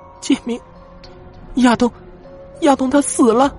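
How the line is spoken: Crying. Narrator (Chinese): 他哭着说

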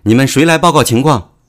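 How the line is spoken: Loud shouting. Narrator (Chinese): 大声嚷道

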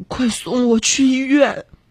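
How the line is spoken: Trembling voice. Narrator (Chinese): 肖一笑声音颤抖的告诉他说

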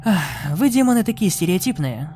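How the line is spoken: Sigh. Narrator (Russian): вздохнул Сет

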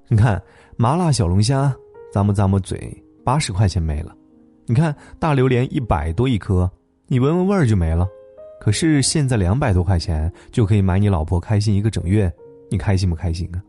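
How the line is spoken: Laughing. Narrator (Chinese): 她笑着说

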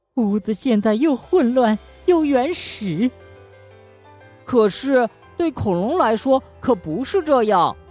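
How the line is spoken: Mother speaking while crying. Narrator (Chinese): 妈妈边哭边说

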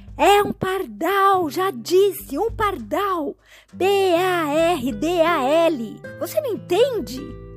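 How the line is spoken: Son shouting reply. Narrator (Portuguese): O filho responde em altos brados

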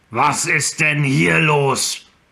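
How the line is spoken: Thundering orc voice. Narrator (German): Die donnernde Stimme eines Orks

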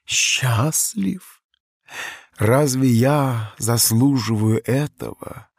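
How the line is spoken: Bitter. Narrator (Russian): с горечью произнес Чарльз

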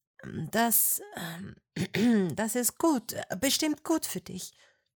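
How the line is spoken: Stammering. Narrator (German): stotterte sie

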